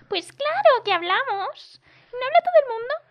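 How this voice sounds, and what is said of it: Shrill squeaky woman's voice. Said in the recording (Spanish): “la voz de pito ... esa voz de mierda ... No se me da bien poner voz”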